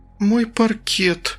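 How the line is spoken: Strained, barely squeezed out. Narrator (Russian): только и выдавила мама Света

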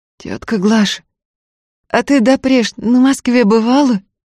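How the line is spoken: Hoarse question. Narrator (Russian): сипло спросила Устья

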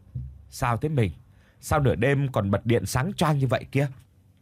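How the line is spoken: Trembling. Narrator (Vietnamese): Thành run rẩy

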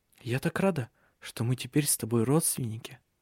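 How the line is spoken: Whisper. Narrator (Russian): шепнула она ей

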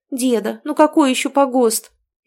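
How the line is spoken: Frightened wail. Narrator (Russian): испуганно запричитала Тоня

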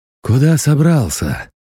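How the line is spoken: Gruff grumble. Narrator (Russian): буркнул захребетник

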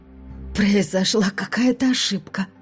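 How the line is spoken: Hoarse voice. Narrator (Russian): сказала я, с трудом узнавая свой хриплый голос

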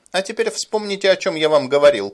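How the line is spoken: Shouting. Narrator (Russian): крикнул Гэт остальным аэронавтам

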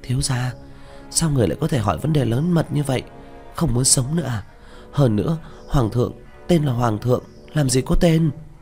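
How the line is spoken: Frightened, tense, hushed voice. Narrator (Vietnamese): Miêu Nhi sợ hãi, thập phần khẩn trương, hạ giọng nói

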